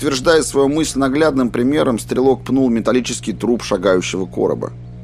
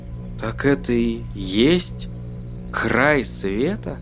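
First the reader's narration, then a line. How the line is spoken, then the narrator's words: Almost timid question. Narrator (Russian): спросил он почти робко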